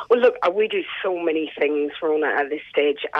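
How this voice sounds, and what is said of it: Irish Sligo accent mixed with New Zealand. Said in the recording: “mixed accent of Sligo and Kiwi”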